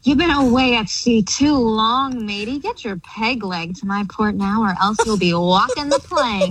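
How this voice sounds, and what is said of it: Pirate voice. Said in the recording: “talking like a pirate”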